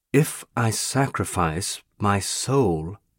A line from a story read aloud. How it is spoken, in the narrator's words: I said slowly